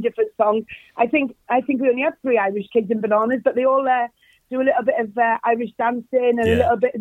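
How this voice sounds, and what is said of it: Welsh accent. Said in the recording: “you're Welsh ... you haven't lost the accent”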